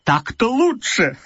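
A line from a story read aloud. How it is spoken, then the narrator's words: Laughing. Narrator (Russian): сказал я, смеясь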